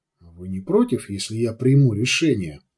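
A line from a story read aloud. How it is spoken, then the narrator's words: Barely audible question. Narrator (Russian): Едва слышно поинтересовался Нав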